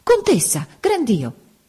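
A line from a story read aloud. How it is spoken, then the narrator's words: Sudden exclamation. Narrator (Italian): A un tratto esclamò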